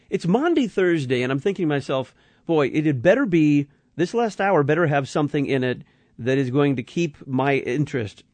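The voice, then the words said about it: Slightly strained, tired voice. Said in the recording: “My voice is a little on the hairy edge, and I'm just tired.”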